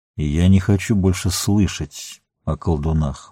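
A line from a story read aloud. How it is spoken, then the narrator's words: Gloomy. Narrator (Russian): мрачно ответил Денетер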